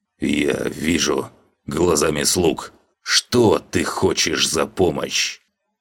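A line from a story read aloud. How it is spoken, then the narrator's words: Hissing from mouth corner. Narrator (Russian): краем рта прошипел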